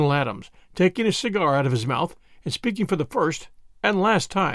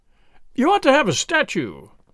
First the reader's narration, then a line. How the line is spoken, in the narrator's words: cried the Canadian, radiant